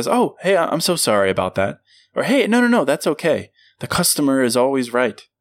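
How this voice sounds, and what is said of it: Overly polite customer-service voice. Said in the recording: “customer service voice”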